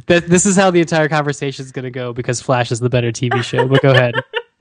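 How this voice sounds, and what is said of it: Imitates another person's voice. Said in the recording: “did an impression of me or an impression of Peter Stormare”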